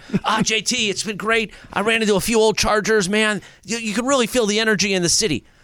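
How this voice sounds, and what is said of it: Imitates another person's voice. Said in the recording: “That's actually not terrible. That's a pretty good impersonation.”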